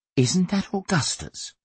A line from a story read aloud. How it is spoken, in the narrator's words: Miss Slee whispered